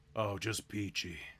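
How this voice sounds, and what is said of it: Gravelly drawling imitated actor voice. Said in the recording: “your Kurt Russell impression... Kurt Russell is just kind of a gravelly John Wayne”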